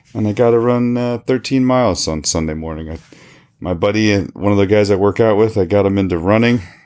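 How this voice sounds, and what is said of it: Unusually deep, cold-affected voice. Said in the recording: “even though I have a deep voice, it's not usually this deep. So I'm obviously fighting some sort of cold or something.”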